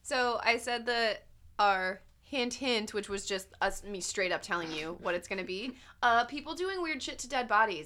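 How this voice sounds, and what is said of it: Scratchy voice. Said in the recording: “my throat doesn't feel great ... It's just a little scratchy”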